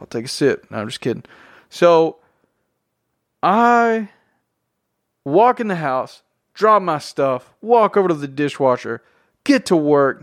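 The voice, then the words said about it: Strong Southern drawl. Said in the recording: “I'm from Tennessee. I have a very southern accent, drawl, and it gets rough sometimes.”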